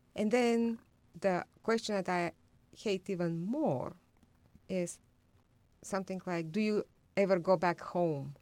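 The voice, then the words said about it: Bulgarian accent in English. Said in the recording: “When people hear my accent, they ask me, where I'm from ... I tell them I'm from Bulgaria”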